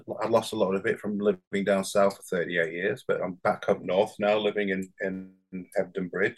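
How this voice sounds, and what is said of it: Slight northern English accent. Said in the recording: “I'm from Bradford. I don't know whether you notice the northern accent ... I heard a little twang ... it's a tiny lilt ... my accent's come back”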